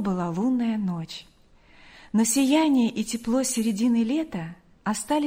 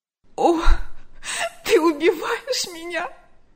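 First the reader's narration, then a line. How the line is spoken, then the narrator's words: Sobbing. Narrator (Russian): рыдала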